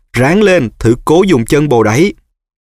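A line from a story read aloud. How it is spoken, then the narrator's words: Desperate cry. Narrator (Vietnamese): Harry kêu lên tuyệt vọng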